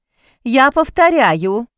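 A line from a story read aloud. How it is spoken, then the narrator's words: Loud. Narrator (Russian): громко сказала она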